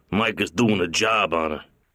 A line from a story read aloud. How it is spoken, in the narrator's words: Clemenza grunted